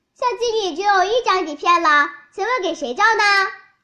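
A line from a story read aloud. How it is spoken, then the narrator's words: Sudden cry. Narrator (Chinese): 摄影师突然叫起来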